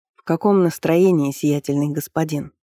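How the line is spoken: Quiet question. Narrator (Russian): тихо спросил Сафар у гонца

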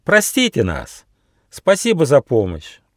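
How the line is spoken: Exclaiming in chorus. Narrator (Russian): дружно хором воскликнули

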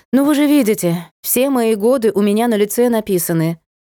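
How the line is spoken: Feigned sigh. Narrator (Russian): притворно вздохнула

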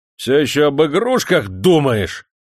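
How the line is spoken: Yelled. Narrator (Russian): заорал он на крепостного

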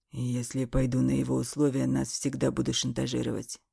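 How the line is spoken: Hoarse. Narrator (Russian): хрипло сказал он

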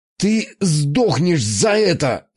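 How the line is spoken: Hoarse. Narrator (Russian): хрипел я

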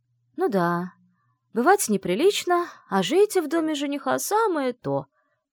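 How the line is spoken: Cheerful summing up. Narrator (Russian): бодро подытожила Вивьен

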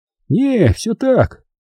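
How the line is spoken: Short grunt. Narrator (Russian): Серега хмыкнул

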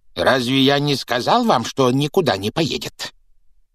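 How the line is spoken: Hissing. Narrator (Russian): прошипел дядя Вернон

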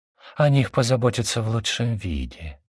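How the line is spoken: Sugary half-whisper. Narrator (Russian): приторным полушепотом выдохнул Матонин

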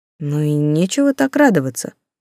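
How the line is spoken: Gloomy. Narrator (Russian): мрачно сказала она

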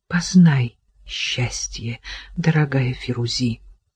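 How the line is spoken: Tearful whisper. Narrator (Russian): Еле сдерживая слезы, Кира прошептала

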